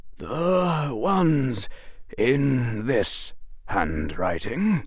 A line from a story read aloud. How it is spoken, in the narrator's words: he said, still in that low voice